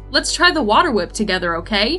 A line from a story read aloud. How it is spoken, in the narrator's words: He yelled happily